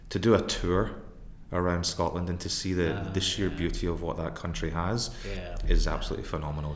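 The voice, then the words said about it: Scottish accent. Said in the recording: “you can tell from my accent that I don't have an Italian accent ... my mum's a Scot. So, you know, I grew up in Scotland.”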